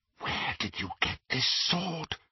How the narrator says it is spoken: she whispered

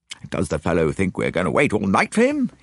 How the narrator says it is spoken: he exclaimed

